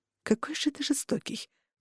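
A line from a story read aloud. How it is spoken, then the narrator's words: Muttering. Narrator (Russian): пробормотала я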